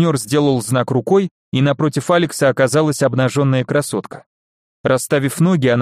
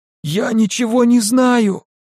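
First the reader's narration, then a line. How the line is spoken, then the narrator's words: Pimp groaning. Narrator (Russian): застонал сутенер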